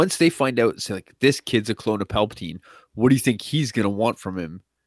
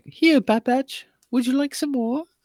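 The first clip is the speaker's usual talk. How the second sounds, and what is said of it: Bad put-on British accent. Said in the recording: “Why is the Oliver Twist? ... Is ... or ... Brit accent worse? ... they're both horrible. ... They're both terrible.”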